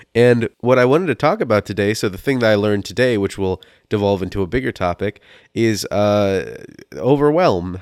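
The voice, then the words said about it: Rough voice from illness. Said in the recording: “my voice is a little rough because I'm sick as a dog”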